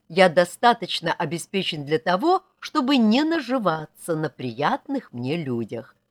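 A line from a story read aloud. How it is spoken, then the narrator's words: Plain. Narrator (Russian): сказал он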